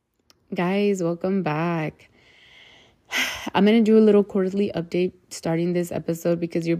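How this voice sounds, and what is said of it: Rough-sounding voice. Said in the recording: “my voice sounds kind of rough”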